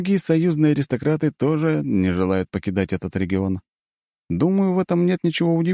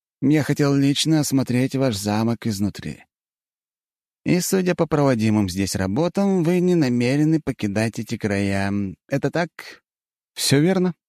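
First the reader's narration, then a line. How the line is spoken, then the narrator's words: Calm. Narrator (Russian): Спокойно произношу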